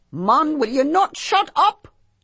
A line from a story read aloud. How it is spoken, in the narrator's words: McAuliffe yelled at him in a high, frustrated sort of voice